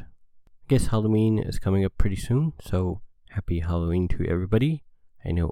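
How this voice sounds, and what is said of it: Stuffed-up, sad-sounding voice. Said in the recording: “tell from my voice ... pretty sick ... allergy, sneezy, cold thing going on. So that's got my voice kind of stuffed up ... extremely sad, making things sound a little bit different”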